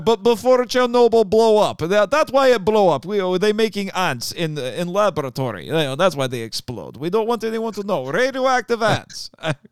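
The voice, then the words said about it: Sustained put-on Russian accent. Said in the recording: “You're incredibly good at keeping that accent. I mean, most people can do it for a few sentences, but that was the whole way through. ... the rumors that ... actually a Russian”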